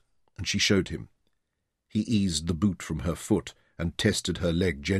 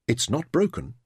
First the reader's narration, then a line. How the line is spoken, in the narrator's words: he said